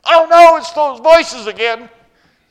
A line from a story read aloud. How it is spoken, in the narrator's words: he assumed the fetal position and screamed